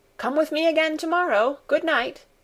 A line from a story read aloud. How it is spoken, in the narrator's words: Peter called out after her